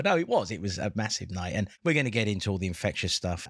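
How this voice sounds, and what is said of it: Lower, deeper, tired voice. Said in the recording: “my voice is maybe an octave lower. Sexy. Because I'm kind of tired.”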